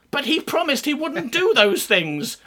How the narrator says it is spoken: wailed poor betrayed Prince Inuku the Wellgood

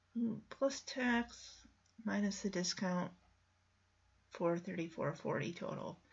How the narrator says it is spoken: he quietly mumbles

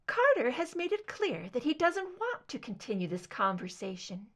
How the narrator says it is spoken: Deborah said, her voice light and delicate

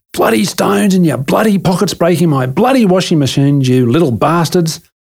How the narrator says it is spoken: Mum started screaming

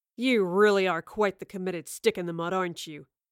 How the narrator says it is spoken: Waylon spat at the professor

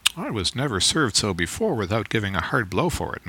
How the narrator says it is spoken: muttered Stubb

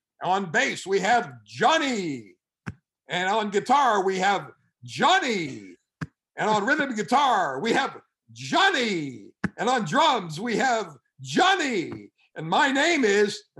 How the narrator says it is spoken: the whole audience yells out

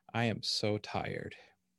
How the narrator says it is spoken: She sighed

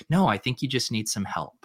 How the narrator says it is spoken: just saying calmly

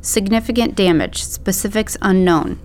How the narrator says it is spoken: Gig said

